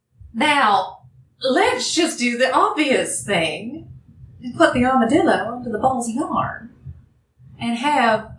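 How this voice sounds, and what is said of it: Inconsistent put-on accent. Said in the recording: “I'm fucking this accent all over the place”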